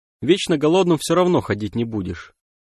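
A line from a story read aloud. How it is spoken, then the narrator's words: Dry girl's voice. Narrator (Russian): сухо произнесла девушка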